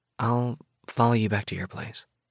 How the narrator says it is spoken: she murmurs

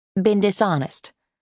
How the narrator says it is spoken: Liston corrected herself quickly

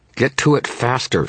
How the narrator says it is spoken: she snarled

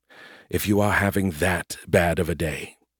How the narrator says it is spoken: Scarandum said quietly

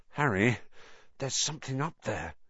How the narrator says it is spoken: said Ron hoarsely

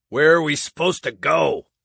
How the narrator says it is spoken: Haney grunted, as he tried to reposition himself

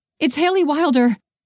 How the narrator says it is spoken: she blurted out

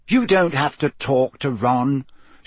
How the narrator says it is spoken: she added irritably

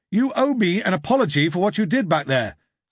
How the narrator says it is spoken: shouted the man

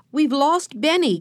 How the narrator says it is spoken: cried Jesse

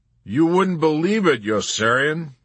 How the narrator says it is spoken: he ruminated, raising his voice deliberately to bait Dr

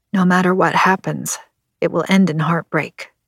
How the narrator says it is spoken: I muttered

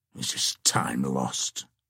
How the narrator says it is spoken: muttered Cedric apart and impatiently

